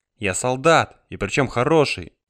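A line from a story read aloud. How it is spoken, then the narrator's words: Snapping. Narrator (Russian): огрызнулась она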